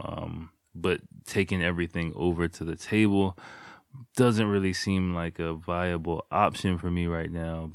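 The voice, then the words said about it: Slightly sick, congested voice. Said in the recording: “you can hear from my voice. ... I'm a little bit not under the weather. ... I got a little bit of runny nose”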